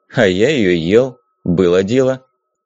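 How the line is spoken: Calm reply. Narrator (Russian): спокойно ответил Зиг

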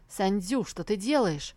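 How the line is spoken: Indignant question. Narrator (Russian): возмущенно спросил он

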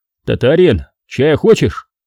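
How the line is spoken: Shout. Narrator (Russian): крикнул я

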